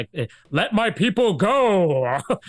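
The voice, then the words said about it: Charlton Heston impression, dramatic voice. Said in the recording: “that famous Charlton Heston line ... In his very Hebrew voice,”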